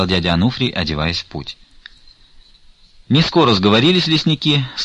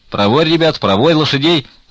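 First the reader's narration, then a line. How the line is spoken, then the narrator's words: Loud ringing shout. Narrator (Russian): закричал он на всю зимницу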